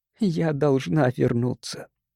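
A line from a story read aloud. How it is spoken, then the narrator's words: Even voice. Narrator (Russian): ответила она ровным голосом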